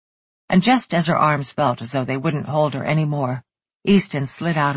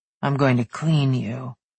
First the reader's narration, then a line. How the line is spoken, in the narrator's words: he said in a rumbling voice